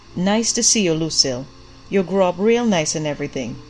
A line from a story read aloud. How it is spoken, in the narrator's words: he said